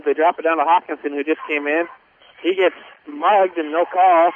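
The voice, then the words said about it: Voice giving out, hoarse. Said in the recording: “I was losing my voice there”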